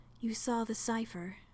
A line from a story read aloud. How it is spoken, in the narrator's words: she said, her voice quiet